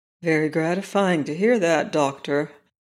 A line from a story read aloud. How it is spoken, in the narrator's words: Barney said gravely